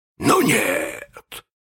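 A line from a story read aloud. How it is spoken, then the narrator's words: Hissing through teeth. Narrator (Russian): прошипел Крюк сквозь зубы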